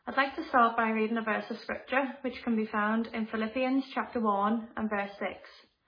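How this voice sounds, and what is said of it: Liverpool accent. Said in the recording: “As you can probably tell from my accent, I'm not originally from this part of the world... I come from a small city called Liverpool”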